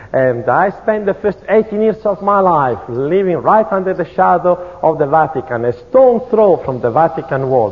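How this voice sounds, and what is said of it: Strong Italian accent in English. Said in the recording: “you can tell that I have a terrible Italian accent ... I have not overcome my Italian accent”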